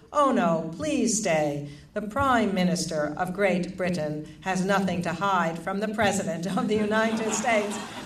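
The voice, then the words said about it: Very formal, dignified voice. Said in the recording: “in a very formal voice”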